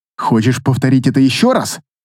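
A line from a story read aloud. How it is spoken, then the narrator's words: Growl. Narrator (Russian): рыкнула она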